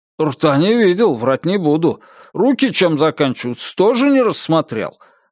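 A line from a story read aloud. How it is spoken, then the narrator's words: Offended speech. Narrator (Russian): обиженно проговорил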